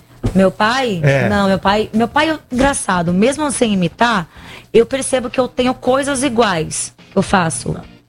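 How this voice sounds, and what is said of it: Hoarse voice. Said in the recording (Portuguese): “tô rouca ... Só que eu estou rouca”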